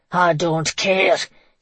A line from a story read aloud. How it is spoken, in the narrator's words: he roared